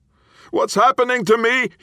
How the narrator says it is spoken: he screamed

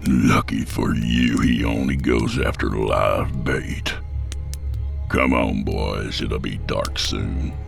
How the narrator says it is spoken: growled

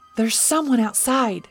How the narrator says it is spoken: Paul cried wildly

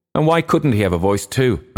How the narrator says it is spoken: asked Freddie Mallin sharply

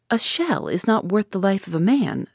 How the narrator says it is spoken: said I

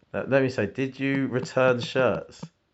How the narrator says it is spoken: She said, laugh loud near, not in

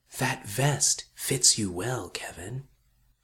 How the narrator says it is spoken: It whispered

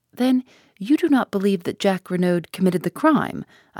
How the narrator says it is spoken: I asked eagerly

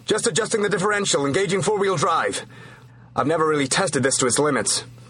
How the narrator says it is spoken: He shouted over the engine noise

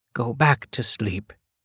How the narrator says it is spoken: she whispered in his ear

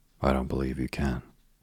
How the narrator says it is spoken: he said

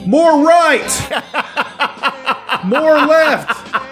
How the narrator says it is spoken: scream over a megaphone

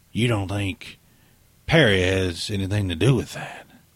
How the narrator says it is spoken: Bonning's shrill hiss

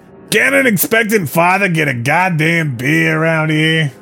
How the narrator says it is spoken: John whined

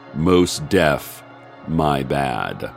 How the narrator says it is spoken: Harrison said gravely

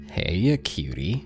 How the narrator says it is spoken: the saggy, blonde-haired man murmured

